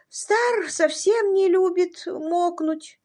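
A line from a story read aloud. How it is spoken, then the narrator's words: Sleepy small voice. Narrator (Russian): Стелла сонным голоском заметила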